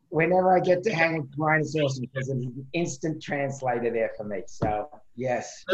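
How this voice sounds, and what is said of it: Thick Australian-New York accent. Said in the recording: “the Australian Long Island accent ... his accent is thicker now than when he got here”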